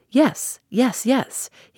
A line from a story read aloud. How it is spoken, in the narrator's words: exclaimed eagerly